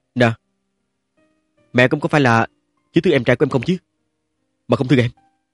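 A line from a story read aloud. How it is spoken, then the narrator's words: Hurt questioning. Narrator (Vietnamese): Trình Dịch Hòa nhớ đến cái thái độ ban ngày lạnh lùng của Trương Tuấn Diễm, thôi miệng hỏi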